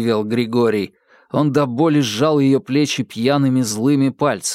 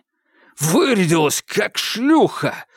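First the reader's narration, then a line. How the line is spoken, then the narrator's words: Hiss through teeth. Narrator (Russian): сквозь зубы прошипел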